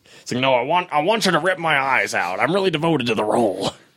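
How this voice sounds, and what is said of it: Imitates another person's voice. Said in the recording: “That's my Stan Lee impression. ... That was super good.”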